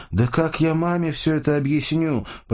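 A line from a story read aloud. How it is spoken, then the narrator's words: Near shout. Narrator (Russian): почти выкрикнула Сашка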